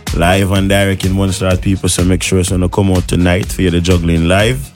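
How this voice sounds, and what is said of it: Jamaican accent. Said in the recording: “you have a Jamaican accent”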